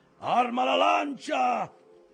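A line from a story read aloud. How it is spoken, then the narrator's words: Impetuous yell. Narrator (Italian): urlò impetuoso Ahab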